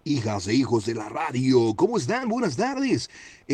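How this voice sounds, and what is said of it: Radio announcer voice. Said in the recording (Spanish): “¿Cómo es su voz de locutor?”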